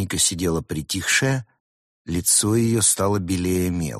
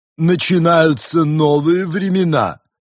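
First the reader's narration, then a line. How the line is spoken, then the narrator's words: Rapturous, menacing exclamation. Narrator (Russian): восторженно и грозно воскликнула Рысь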